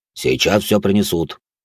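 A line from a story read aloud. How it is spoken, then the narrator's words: Pleased deep bass. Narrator (Russian): довольным голосом пробасил здоровяк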